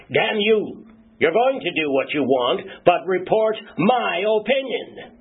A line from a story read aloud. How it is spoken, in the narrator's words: his country's president shout